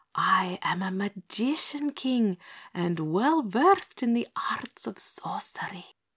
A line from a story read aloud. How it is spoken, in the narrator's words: whispered hoarsely